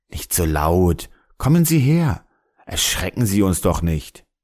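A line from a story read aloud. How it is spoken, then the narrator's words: Calm smiling reply. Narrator (German): blieb ruhig und antwortete lächelnd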